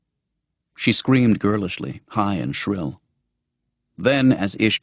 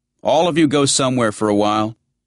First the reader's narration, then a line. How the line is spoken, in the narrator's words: he said loudly